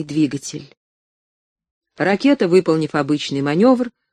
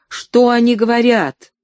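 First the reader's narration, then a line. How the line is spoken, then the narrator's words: Shouted in chorus. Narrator (Russian): Несколько человек хором закричали сверху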